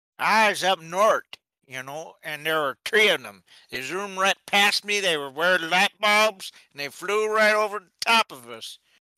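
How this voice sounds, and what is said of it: Performed character voice. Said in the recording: “your impression.”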